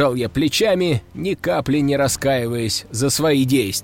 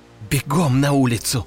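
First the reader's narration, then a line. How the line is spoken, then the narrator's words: Growled. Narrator (Russian): рыкнула Катя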